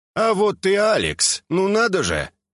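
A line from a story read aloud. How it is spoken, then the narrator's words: Cheerful. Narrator (Russian): весело обратился ко мне Хидеки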